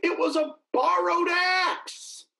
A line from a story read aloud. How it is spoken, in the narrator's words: cried